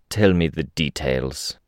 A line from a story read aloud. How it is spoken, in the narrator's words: Snag said, his voice growl-like